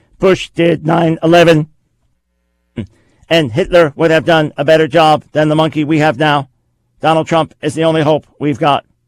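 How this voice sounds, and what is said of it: Imitated robot voice. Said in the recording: “I'll give you my best robot voice here.”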